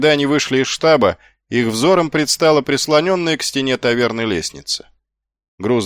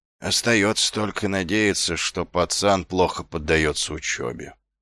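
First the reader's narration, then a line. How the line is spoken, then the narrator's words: Grumbling. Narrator (Russian): пробурчал Ваймс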